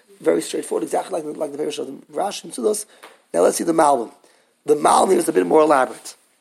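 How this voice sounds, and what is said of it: Hoarse, strained, fading voice. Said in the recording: “I'm losing my voice very quickly”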